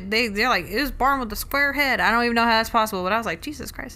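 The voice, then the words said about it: Put-on Southern US accent. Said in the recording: “you used, like, a very, like, southern accent.”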